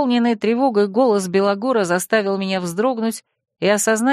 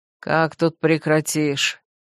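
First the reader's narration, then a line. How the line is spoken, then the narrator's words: Gloomy reply. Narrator (Russian): мрачно отозвался Белогор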